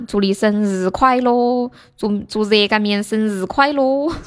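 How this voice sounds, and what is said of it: Singing in a Sichuan accent. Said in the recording (Chinese): “你用四川话唱是吗？你是不是这么唱？”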